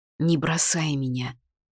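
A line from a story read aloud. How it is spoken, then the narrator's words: Whisper in the ear. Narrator (Russian): прошептал на ухо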